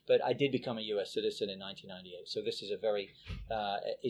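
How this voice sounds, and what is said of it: English accent. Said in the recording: “people sense from the accent, you know, you're, from England.”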